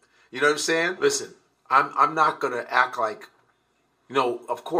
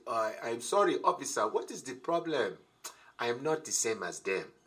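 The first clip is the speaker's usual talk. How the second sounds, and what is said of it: Put-on African accent. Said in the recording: “I used to try to use that African accent.”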